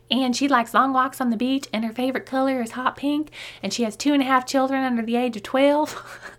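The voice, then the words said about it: Put-on Southern Belle accent. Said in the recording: “I just put on my Southern Belle accent for that”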